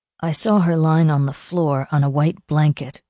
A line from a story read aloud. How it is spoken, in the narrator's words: John Ramsey said in a tight, tortured voice